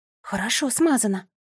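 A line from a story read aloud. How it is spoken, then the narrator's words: Whisper. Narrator (Russian): прошептала она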